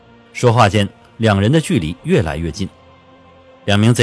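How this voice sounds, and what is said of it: Usual voice. Nothing is said of it.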